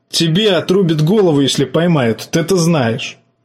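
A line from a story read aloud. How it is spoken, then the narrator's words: Nervous laugh. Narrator (Russian): жаба нервно хохотнул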